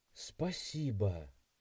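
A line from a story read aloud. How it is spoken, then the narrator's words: Quiet. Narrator (Russian): тихо произнесла девушка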